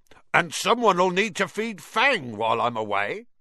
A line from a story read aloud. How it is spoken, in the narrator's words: said loudly